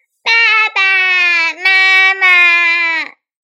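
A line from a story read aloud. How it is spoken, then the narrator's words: Repeated calling. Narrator (Chinese): 它不断的叫啊叫啊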